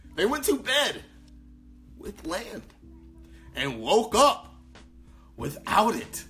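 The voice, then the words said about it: Clumsy put-on accent. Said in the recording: “I'm terrible with accents. So I'll let you know what the accent is and then you just put it in your head.”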